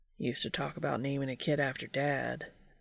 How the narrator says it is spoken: Dean muttered

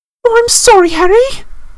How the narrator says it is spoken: she wailed

